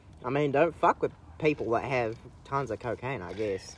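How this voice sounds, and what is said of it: Put-on Southern American accent. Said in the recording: “That fucking southern accent stuck. ... I did it too much as a joke, and now it's fucking stuck.”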